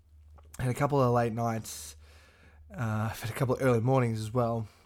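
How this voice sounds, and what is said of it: Hoarse voice. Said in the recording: “hear in my voice, I'm a little bit hoarse ... ended up getting a little hoarse”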